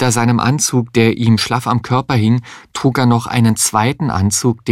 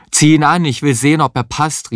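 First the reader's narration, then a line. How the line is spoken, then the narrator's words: Shouting with full mouth. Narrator (German): rief Heinz mit vollem Mund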